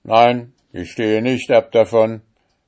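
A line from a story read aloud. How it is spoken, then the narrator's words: Judge calling out. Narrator (German): rief der Richter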